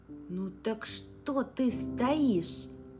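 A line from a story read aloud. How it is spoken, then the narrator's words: Exclaimed. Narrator (Russian): воскликнул Инг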